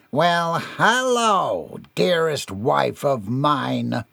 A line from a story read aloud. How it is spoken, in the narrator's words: Gerard sneered